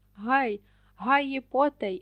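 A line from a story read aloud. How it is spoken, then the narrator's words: Dwarf's shout. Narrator (Ukrainian): вигукнув карлик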